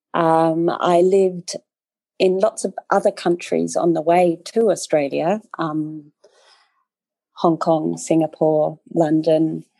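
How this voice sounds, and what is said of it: Australian-sounding accent. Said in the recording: “You wouldn't guess from my accent, but I lived in Australia longer than I have in Austria. So I guess that's where it comes from.”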